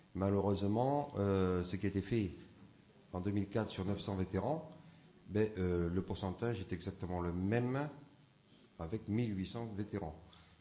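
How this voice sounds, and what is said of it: Parisian French accent. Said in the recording (French): “mon petit accent parisien”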